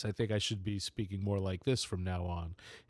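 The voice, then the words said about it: Deep announcer-style radio voice. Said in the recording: “I need to start working on my radio voice.”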